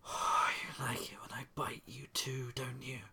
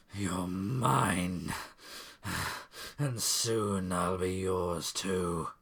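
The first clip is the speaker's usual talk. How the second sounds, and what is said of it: Demon voice. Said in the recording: “demon voice”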